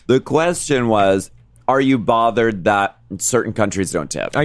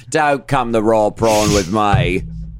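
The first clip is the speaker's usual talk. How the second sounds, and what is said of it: Bad put-on Australian accent. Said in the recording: “Pardon my horrible Australian accent. ... our horrible Australian accent, please forgive.”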